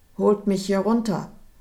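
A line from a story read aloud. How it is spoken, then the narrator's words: Angry shout. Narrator (German): rief seinen Soldaten wütend zu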